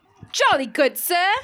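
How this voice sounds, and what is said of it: Put-on British accent. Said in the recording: “how is your British accent?”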